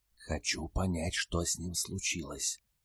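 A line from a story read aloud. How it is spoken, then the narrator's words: Whisper. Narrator (Russian): прошептала Альфа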